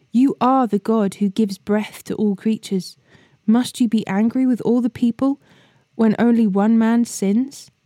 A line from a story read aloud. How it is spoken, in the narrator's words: they pleaded